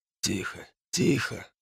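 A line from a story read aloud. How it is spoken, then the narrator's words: Muttered. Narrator (Russian): забормотал оттуда неизвестный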